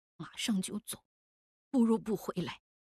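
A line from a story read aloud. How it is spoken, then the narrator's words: Muttering. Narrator (Chinese): 郑白嘀咕了一句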